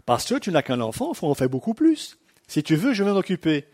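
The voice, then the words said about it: Imitated African French accent. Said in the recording (French): “j'ai une sœur africaine ... Excuse-moi pour l'accent, mais elle avait cet accent-là.”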